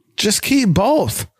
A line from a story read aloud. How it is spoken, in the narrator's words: screaming at the TV